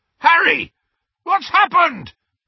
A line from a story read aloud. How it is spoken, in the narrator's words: bellowed Hagrid